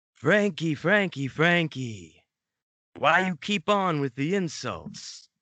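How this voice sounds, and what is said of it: Exaggerated comic Italian-style accent. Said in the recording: “Although he had never set foot in Italy, Tony spoke with the pronounced Chico Marx type accent.”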